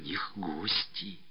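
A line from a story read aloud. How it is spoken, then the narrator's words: Whispered declaration. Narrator (Russian): шепотом заявила она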